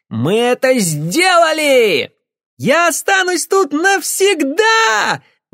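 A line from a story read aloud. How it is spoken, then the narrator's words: Excited shout. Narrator (Russian): выкрикнула Джейми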